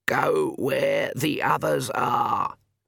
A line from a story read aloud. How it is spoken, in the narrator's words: Granny Weatherwax croaked